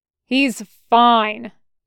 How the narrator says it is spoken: Waxer said loudly enough that Snag and CT-21/3777 could hear

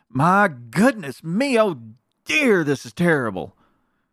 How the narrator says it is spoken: cried Mr

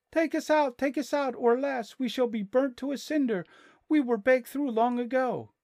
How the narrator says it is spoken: cried the loaves as before

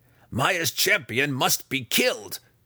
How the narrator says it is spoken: Breeza snarled

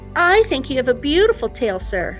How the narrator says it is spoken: said the duckling

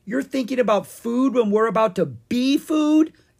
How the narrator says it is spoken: Ella yelled

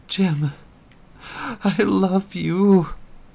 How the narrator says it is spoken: Melinda cried in Eric's mind

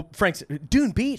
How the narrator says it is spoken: Frank shouted

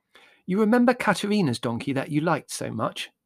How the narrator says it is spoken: said Margot

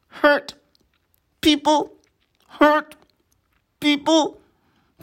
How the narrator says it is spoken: Frog croaked

